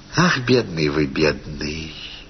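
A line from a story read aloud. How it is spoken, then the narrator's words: Simple, gentle tone. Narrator (Russian): сказала она просто и ласково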